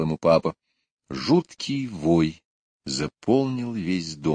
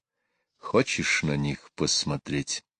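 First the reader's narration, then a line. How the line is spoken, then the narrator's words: Quiet question. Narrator (Russian): тихо спросил он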